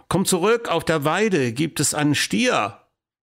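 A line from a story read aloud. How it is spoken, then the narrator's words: Father calling. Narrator (German): rief der Vater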